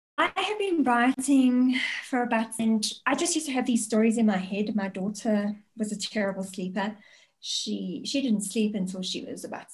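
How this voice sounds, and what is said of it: Speaks with a noticeable accent. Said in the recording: “I love the accent. And just kind of goes to prove that we are suckers for accents”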